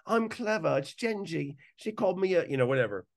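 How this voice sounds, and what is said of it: Good put-on British accent. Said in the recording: “that's a good British accent”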